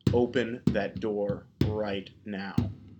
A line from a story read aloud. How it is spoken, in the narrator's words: said